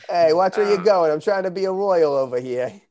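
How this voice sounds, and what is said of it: Thick put-on Boston accent. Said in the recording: “I always imagine them with specifically a thick Boston accent.”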